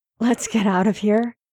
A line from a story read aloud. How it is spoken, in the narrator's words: Harry says hoarsely